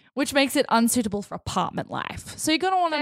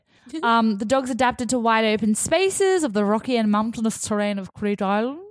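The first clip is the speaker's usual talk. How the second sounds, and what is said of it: Put-on accent. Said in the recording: “I said it in that accent”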